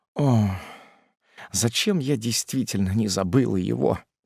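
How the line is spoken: Muttered. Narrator (Russian): пробормотала она

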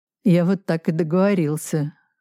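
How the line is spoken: Sad smile. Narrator (Russian): грустно улыбнулся Кобзев

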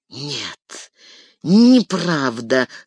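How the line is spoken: Hissed, ashen with fear. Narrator (Russian): став совершенно серым, прошипел Грима

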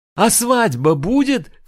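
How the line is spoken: Shout. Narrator (Russian): крикнул Мамий

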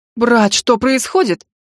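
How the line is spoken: Exclaiming. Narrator (Russian): воскликнул Виктор

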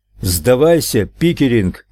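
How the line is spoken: Shouting. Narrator (Russian): крикнул Нелл

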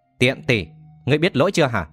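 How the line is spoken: Cold harsh growl. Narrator (Vietnamese): Thiết Độc Hành lạnh lùng nhìn Thiết Nương Nương vẫn còn đang quỳ dưới đất, gằn giọng nói

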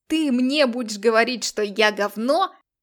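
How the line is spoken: Yelling, spitting. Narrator (Russian): орал, брызгая слюной Лекс

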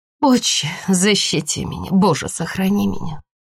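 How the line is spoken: Mother's murmured prayer. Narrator (Russian): Мама пробормотала

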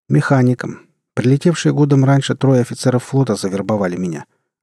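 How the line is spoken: Plain. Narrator (Russian): ответил долговязый Рон

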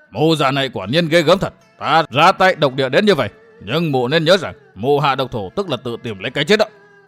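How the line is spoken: Furious roar, then shout. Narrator (Vietnamese): Hoa Đả Vương Đông Môn Liêu lửa giận bốc lên ầm ầm, lão gầm lên một tiếng rồi quát

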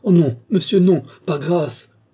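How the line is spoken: Pleading exclamation. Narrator (French): s'écria Gilbert

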